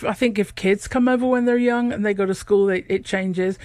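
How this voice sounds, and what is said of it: English northern Manchester accent. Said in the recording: “I have a bit of Manchester accent, but it's very different from Liverpool.”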